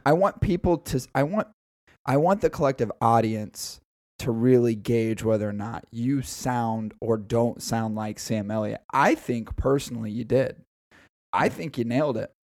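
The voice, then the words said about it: Raspy voice from illness. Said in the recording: “my voice doesn't go that deep, but with the raspiness I have right now from the illness that has plagued my body for well over a week now”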